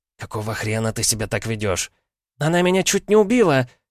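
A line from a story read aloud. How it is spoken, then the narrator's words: Shrieked. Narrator (Russian): взвизгнула Мария Петровна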